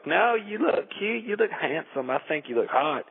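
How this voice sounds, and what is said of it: Put-on South Carolina accent. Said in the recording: “South Carolina accent”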